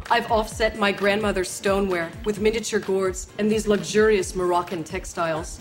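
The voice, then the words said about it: Martha Stewart impression. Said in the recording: “you could do Martha Stewart right now ... do an impression of her”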